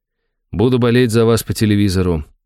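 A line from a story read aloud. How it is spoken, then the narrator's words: Sad smiling voice. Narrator (Russian): грустно улыбнулся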